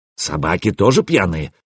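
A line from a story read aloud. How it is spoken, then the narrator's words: Grumble. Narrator (Russian): проворчал Трувор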